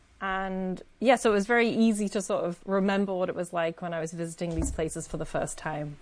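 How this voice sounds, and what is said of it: Northern English accent with a lilt. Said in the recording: “for those who cannot tell from your accent, you are from the north of England ... I do have a bit of a strange accent. It's hard to place sometimes ... it's got a bit of a lilt in there”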